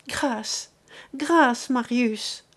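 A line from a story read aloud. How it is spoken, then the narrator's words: Exclaimed. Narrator (French): s'écria-t-elle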